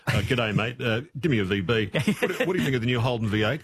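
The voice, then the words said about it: Caricatured straight-man voice. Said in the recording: “impersonate a caricature of a straight man”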